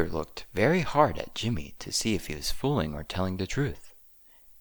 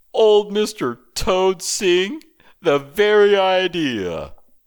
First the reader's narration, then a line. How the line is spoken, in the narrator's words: he cried